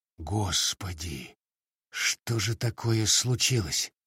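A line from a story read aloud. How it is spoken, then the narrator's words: Whispered with sinking heart. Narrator (Russian): прошептал я, входя с замиранием сердца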